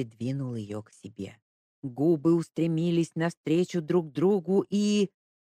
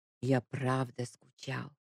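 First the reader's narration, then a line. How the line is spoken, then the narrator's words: Whispered. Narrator (Russian): Прошептал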